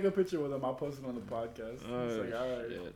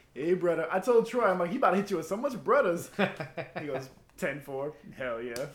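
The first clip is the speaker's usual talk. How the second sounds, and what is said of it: Imitates another person's accent. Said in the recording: “Do his accent.”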